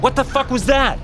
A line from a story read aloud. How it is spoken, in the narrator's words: I yelled